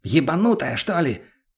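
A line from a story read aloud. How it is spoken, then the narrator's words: Yelling. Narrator (Russian): заорал на нее мутный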